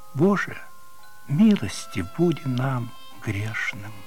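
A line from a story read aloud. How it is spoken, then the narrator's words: Guilty whisper. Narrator (Russian): Наденька виновато прошептала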